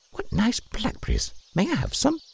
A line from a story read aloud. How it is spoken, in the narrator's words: he chirped